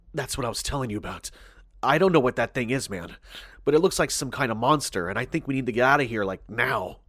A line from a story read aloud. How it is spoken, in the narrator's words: Warily, Jacob whispered